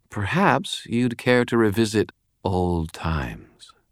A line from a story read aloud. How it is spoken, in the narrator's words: Lara purred